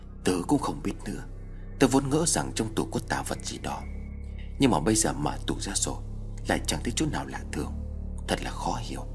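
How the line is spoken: Disappointed. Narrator (Vietnamese): Tôn Kim Nguyên lại tỏ ra thất vọng, khẽ lắc đầu nói

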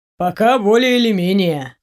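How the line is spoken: Gloomy statement. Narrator (Russian): мрачно констатировал Ваня

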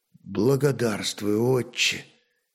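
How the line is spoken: Quiet speech. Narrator (Russian): тихо произнес кельт

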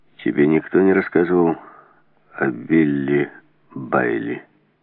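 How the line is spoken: Gloomy question. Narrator (Russian): мрачно спросил Гульден

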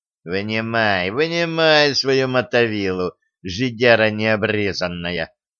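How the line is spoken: Affectionate tone. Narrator (Russian): ласково говорил Студер

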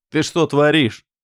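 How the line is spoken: Bark. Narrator (Russian): рявкнул я

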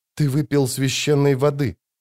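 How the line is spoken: Breathed out. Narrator (Russian): выдохнула она

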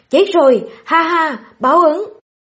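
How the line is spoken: Gleeful yell. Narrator (Vietnamese): Bướm đêm mặt đào lao mở hai cánh môi la lên

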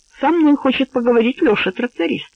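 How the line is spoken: Calm telling. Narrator (Russian): по-прежнему спокойно поведал друзьям Стакоз

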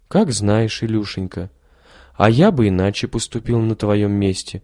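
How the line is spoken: Gentle, affectionate. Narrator (Russian): сказал священник, ласково

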